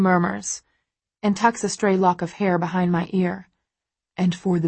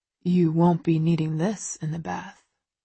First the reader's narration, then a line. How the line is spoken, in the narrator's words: he whispers